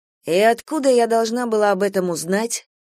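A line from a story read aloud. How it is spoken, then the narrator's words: Gloomy question. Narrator (Russian): мрачно спросила Гидеон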